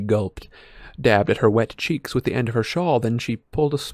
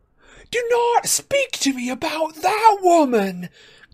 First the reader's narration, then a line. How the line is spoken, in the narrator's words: cried Professor Trelawney